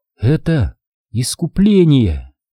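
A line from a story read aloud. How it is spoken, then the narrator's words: Quiet but distinct whisper. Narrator (Russian): Ирина медленно повернулась к нему и тихо, но внятно прошептала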